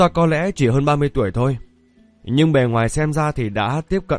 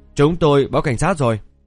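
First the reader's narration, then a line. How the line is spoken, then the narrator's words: Cold. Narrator (Vietnamese): Leaf lạnh lùng nói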